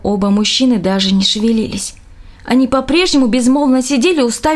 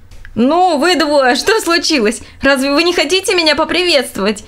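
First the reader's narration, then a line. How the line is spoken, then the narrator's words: Laughing exclamation. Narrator (Russian): Смеясь, воскликнул Роб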